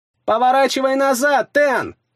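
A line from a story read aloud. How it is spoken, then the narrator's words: Shout. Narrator (Russian): закричала Вигдис мне в спину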